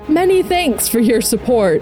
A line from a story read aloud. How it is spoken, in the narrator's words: Shax hollered as he revved the engines on his sparrow